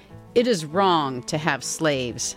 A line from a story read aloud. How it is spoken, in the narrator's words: said the Northerners